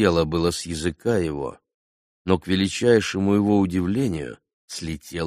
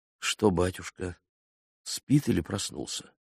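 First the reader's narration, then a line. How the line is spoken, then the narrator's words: Quiet, meek. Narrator (Russian): Тихо и смиренно проговорил он, себе самому неожиданно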